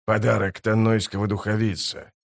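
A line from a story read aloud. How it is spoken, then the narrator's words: Whisper. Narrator (Russian): Этот шепот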